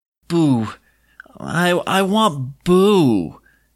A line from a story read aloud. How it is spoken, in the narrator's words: slurred